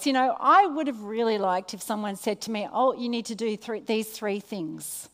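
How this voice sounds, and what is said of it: Australian accent. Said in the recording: “How are you going with my Australian accent? ... Do you all know how to speak Australian?”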